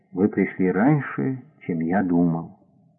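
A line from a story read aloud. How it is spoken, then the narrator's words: Sad old man. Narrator (Russian): Старик произнес печально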